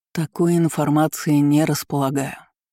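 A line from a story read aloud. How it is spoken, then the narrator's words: Sighing. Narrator (Russian): вздохнул снег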